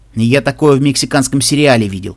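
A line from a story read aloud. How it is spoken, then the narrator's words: Short guffaw. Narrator (Russian): Кубинец хохотнул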